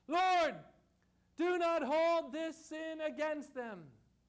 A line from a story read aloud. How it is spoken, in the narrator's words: cried with a loud voice